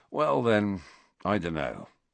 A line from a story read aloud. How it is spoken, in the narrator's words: said Ron